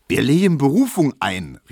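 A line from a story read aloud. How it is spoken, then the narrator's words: Calling out. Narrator (German): rief Teschwieder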